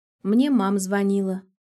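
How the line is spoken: Calm. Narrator (Russian): добавляет она спокойно

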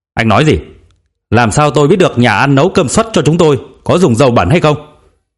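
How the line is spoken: Shouting policeman. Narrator (Vietnamese): Anh cảnh sát quát lên

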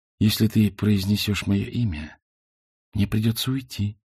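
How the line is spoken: Whisper. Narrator (Russian): шепнула

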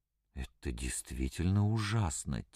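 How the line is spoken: Quiet speech. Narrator (Russian): тихо произнес Щевинский

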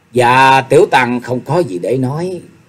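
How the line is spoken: Sighing. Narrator (Vietnamese): Nhạc Chi Dương thở dài

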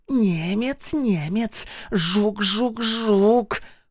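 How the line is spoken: Hissed. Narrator (Russian): шипела Нинка

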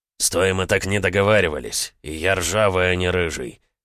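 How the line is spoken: Grumbling, slightly offended. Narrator (Russian): пробурчал он слегка обиженно

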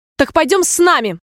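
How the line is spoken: Shrieking. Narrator (Russian): взвизгнула королева

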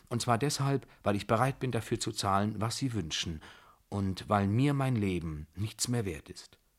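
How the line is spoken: Calm answer. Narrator (German): antwortete ruhig

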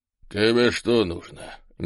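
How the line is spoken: Unfriendly grumble. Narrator (Russian): недружелюбно буркнул полный мужчина

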